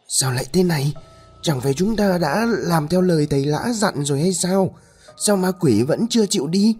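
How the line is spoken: Panting, frightened woman. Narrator (Vietnamese): Bà Hoài thở hổn hển, mồ hôi túa ra như tắm

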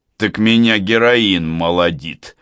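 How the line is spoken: Reply bursting into laughter. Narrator (Russian): откликается Хате и прыскает хохотом

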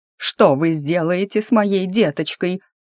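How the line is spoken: Wailing, woman. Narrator (Russian): взвыла помещица

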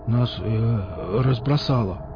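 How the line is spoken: Mumbled. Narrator (Russian): промямлил Емеля

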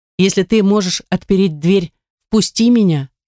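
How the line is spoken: Plain. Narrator (Russian): сказала Эмилия

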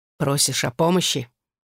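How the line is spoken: Firm tone. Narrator (Russian): твердым тоном произнес

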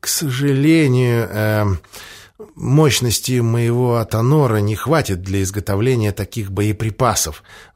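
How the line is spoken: Sighing. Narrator (Russian): вздохнул Андреас

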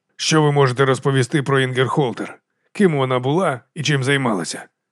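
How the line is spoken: Sighing. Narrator (Ukrainian): Еванс зітхнув

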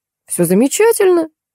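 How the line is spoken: Falsely cheerful exclamation. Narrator (Russian): фальшиво весело воскликнул Олег

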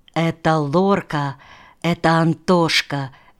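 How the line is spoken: Whisper. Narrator (Russian): шептала она

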